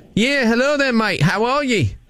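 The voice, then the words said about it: Put-on Australian accent. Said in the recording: “I'm going to try and get the job by using my Australian accent”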